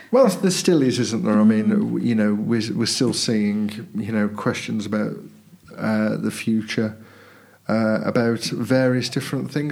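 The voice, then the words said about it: Voice in poor condition, rough. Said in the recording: “my voice is not brilliant for some reason ... my voice for some reason isn't very good this morning ... I've been coughing”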